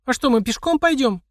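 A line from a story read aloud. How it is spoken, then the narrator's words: Squeaky teenage girl. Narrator (Russian): пискнула одна из девушек, миловидной глупышкой лет 16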